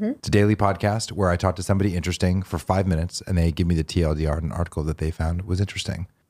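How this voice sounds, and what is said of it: Deep, soothing radio voice. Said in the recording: “You're doing a very like soothing radio voice. ... you're doing like a very deep, like radio thing.”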